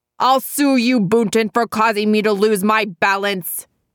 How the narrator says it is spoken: Jemmett shouted

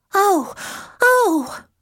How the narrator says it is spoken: Rani Bat cried

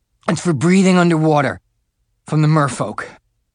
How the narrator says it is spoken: sputtering, he said

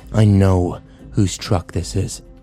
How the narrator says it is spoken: Kyle growled

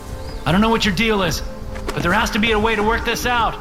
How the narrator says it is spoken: I shout

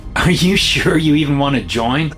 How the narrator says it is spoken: I laugh

